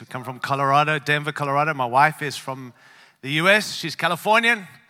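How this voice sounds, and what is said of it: Mixed African-Australian non-American accent. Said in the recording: “I don't have an American accent ... I have a bit of a mix, born in Africa, raised in Australia”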